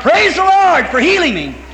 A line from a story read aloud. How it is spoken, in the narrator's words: Hollering